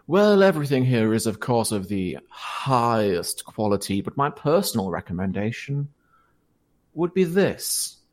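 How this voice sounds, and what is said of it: Old man character voice. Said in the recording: “the same old man voice ... It's all the same old man.”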